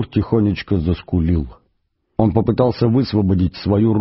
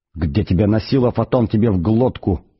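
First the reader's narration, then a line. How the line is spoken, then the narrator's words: Panicked hiss. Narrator (Russian): прошипел Форд в панике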